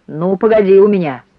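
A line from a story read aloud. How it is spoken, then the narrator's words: Angry grumble. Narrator (Russian): сердито буркнул официант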